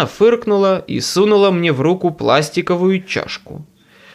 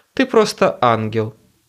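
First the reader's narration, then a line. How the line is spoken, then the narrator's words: Grumbled. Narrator (Russian): буркнул я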